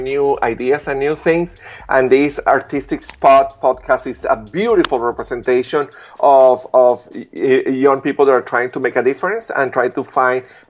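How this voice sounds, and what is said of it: Accent that is hard to follow. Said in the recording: “my accent made it difficult for them to follow my ideas”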